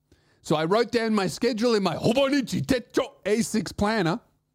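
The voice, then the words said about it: Put-on Japanese accent. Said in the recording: “I say it in a funny and slightly racist Japanese accent... every time I talk about my Hobonichi Techo ASICS planner, I'm going to say it like that”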